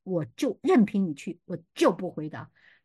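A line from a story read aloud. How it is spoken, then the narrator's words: Angry. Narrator (Chinese): 神愤怒的说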